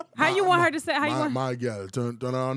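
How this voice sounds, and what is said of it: Fake put-on white-sounding voice. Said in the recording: “with your fake voice, your white voice accent.”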